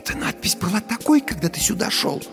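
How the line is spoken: Whispered question. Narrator (Russian): спросила Дженни шепотом

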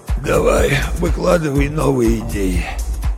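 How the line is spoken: Hoarse rasp. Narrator (Russian): прохрипел

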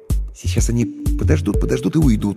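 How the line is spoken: Uncertain guess. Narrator (Russian): неуверенно предположил я

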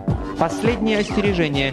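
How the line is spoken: Shout. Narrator (Russian): крикнул Дерг

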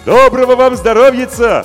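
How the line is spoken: Expressive shout into well. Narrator (Russian): выразительно крикнул Емельян, перегнувшись над колодцем

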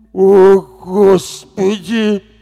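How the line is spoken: Moaning nearby. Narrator (Russian): простонал рядом Ментай

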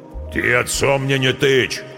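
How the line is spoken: Deep bass voice. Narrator (Russian): пробасил Нежилец

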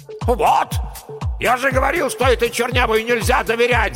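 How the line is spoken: Yelling. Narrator (Russian): заорал геолог-разведчик

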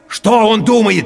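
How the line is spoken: Shouting. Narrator (Russian): теперь я тоже кричал

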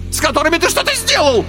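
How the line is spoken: Shrill squeal. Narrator (Russian): Взвизгнул Карбулон

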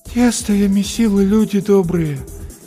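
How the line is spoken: Tired hopeless voice. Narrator (Russian): повторяла женщина усталым и безнадежным голосом

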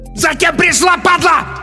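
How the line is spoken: Hysterical yell from behind. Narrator (Russian): истерично заорал сзади Бабич

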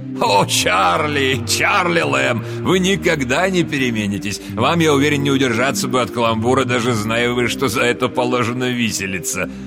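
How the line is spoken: Cheerful exclamation. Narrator (Russian): жизнерадостный джентльмен в красном жилете, воскликнувший в ответ

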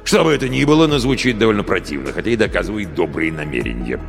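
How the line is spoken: Grumbling. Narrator (Russian): проворчал Гэт

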